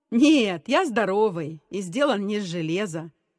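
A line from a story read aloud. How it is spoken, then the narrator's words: Laughing reply. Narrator (Russian): рассмеявшись, ответил Гена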